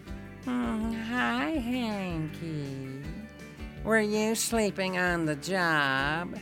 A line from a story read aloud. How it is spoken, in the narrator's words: he said in a whiny voice